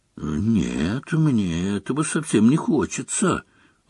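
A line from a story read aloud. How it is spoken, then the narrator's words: Very quiet. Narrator (Russian): очень тихо сказал Рон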